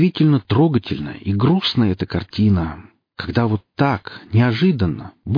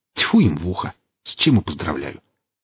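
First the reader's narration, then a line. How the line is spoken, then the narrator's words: Gloomy mutter. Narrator (Russian): Буркнул Велес, с тоской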